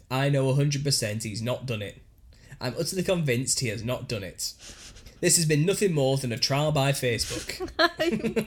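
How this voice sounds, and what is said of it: Put-on northern English accent. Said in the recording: “Stop putting the accent. ... That is not the accent they'll have. ... it's some northern accent”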